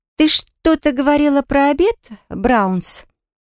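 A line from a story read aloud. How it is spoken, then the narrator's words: Drawling. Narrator (Russian): протянула Гильяр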